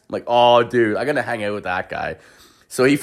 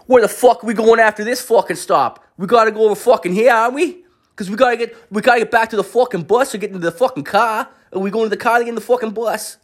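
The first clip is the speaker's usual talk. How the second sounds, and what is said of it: Imitated Boston accent. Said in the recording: “the accent that is most, you cannot mistake this accent. They were from Boston, Massachusetts”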